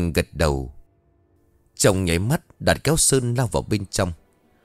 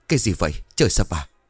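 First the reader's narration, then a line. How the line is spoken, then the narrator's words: Panting. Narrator (Vietnamese): thở hổn hển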